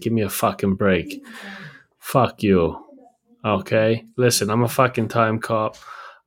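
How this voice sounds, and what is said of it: Exaggerated Boston accent. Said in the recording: “I've got a fucking 2060 Boston accent.”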